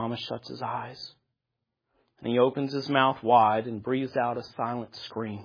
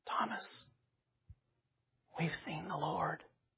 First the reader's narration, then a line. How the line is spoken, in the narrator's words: somebody probably whispers